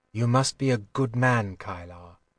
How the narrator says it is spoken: said quietly

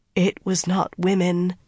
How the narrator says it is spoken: Riala said, her voice faltering

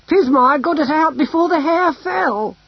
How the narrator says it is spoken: she cried

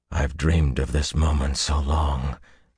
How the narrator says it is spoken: breathed

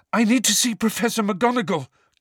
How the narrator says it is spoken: gasped Harry, the breath tearing his lungs

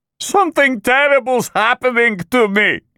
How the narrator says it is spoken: Kondrotin wailed

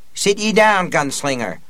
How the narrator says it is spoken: Aunt Talitha cried

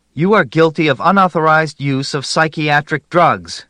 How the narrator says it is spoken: Grishkin shouted

